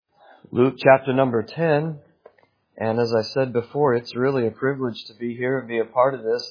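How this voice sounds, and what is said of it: American accent. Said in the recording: “don't let my accent put you off. Come back and hear a proper accent ... it's brought back the American accent”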